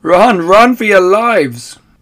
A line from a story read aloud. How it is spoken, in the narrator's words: shouted